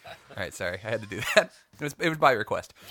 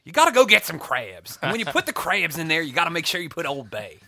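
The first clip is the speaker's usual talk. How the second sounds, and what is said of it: Put-on Maryland accent. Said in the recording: “Say it in the accent. Do it right.”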